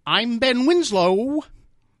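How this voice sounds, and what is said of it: High-pitched, clipped radio reporter voice. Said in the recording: “My voice, my radio voice, was described as high pitched and clipped ... It was kind of high pitched.”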